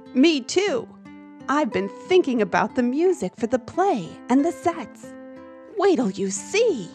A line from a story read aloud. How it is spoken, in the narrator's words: Rogelio excitedly said